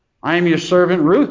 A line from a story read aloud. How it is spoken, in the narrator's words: she says